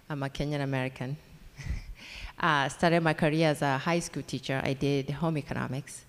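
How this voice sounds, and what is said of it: Kenyan accent. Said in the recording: “that accent is Kenyan”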